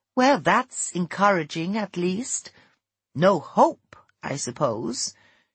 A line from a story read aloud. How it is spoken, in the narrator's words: she spoke gravely